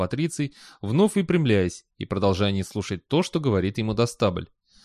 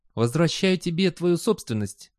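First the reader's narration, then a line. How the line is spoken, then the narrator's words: Sweet voice. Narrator (Russian): сладким голосом промолвил он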